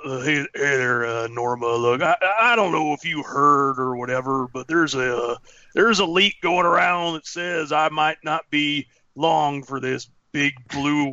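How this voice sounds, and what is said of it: Imitates a TV character's voice. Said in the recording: “great Abraham impression”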